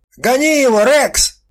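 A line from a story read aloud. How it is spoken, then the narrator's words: Shouting male. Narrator (Russian): кричал чужой самец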